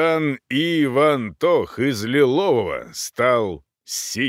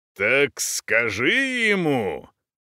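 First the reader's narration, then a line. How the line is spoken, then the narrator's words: Roaring. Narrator (Russian): взревел он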